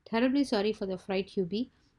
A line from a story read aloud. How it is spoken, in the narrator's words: said Mr